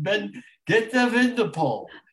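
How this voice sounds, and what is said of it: Yiddish Russian accent. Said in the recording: “doing this role in a Yiddish Russian accent”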